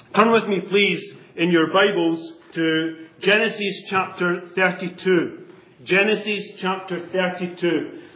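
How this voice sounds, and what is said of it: Accent unfamiliar to the listeners. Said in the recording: “you won't have too much difficulty with my accent. I know some of the words that I say will be pronounced quite differently from the way you pronounce them”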